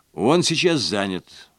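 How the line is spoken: Plain. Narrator (Russian): ответил я

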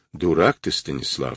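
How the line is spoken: Dry statement. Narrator (Russian): сухо констатировал Гуров

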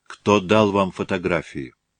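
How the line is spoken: Quiet, tired voice. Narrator (Russian): снова спросил Барков, но уже тихим, усталым голосом

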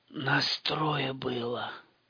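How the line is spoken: Wheezing. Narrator (Russian): хрипел тот

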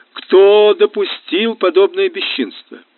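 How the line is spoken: Loud questioning. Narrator (Russian): Она громко вопрошала

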